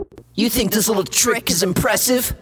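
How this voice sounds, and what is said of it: Imitates another person's voice. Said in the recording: “Wait, how'd you do that? ... Stop mimicking me!”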